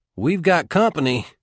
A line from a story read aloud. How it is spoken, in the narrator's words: McDee said unnecessarily